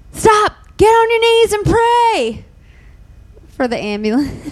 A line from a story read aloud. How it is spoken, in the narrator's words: the woman, she just starts yelling